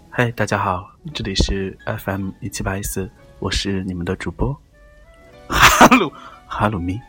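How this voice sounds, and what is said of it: Soft, quiet late-night radio voice. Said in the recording (Chinese): “我们小声一点说话，... 我们现在开始搞一些深夜电台的那种，就是抒情一点的吧”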